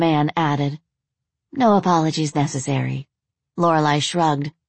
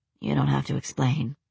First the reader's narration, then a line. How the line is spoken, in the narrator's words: he said, his voice quiet